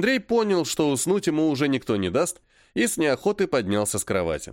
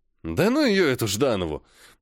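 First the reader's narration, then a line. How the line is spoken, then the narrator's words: Grumbled. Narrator (Russian): буркнул Андрей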